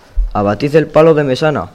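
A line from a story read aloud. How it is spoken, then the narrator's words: Shouted. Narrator (Spanish): grita el capitán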